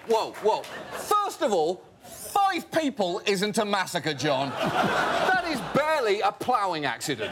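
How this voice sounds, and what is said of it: British accent. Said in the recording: “go around with a British accent? ... your stupid accent”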